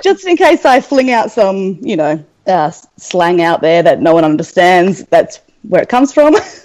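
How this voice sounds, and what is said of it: Australian accent. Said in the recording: “as you can tell from the accent, I apologize in advance. I'm from Australia.”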